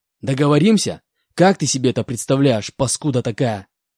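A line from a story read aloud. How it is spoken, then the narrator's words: Disgusted growl. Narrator (Russian): Брезгливо прорычал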